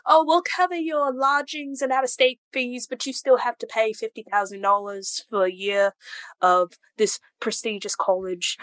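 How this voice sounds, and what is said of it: Put-on British accent. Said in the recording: “Everything sounds better with the British accent”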